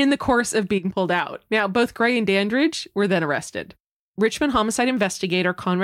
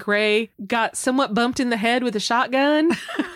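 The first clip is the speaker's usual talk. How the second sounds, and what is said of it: Put-on Southern accent. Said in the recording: “I don't know if he had a southern accent, but it felt right.”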